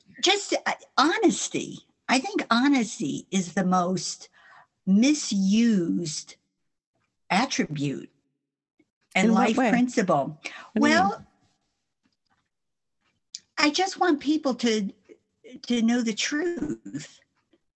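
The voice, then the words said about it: New York-sounding American accent. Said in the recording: “I thought you sounded like you're from New York ... I just can't get rid of the accent.”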